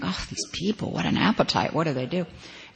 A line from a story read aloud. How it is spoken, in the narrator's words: they would hear her grumbling